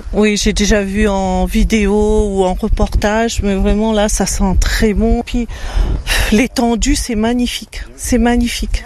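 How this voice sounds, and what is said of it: Slight Réunion French accent. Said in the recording (French): “Je sens un petit accent là. ... La Réunion.”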